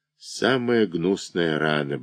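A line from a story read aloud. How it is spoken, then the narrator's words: Muttering. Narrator (Russian): бормочет Степиков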